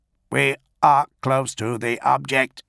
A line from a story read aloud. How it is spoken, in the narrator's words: one of them reported to the Tetrarch in a reedy, augmetic tone